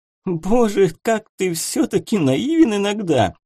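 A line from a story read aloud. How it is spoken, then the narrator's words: Laughing. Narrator (Russian): рассмеялся Барановский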